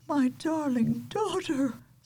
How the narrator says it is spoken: sobbed the queen

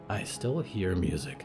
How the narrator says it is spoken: Percy whispered

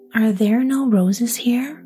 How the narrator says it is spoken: cried Gerda

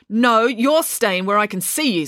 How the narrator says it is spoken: snapped Mum

